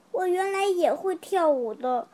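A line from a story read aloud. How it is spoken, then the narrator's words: Sighing old voice. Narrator (Chinese): 一只老瓢虫叹了一口气说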